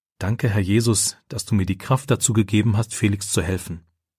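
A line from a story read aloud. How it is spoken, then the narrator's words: Quiet prayer. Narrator (German): betet er leise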